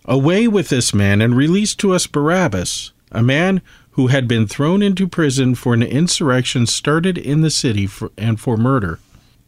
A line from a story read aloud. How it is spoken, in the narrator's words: they all cried out together